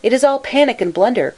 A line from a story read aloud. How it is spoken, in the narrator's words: cried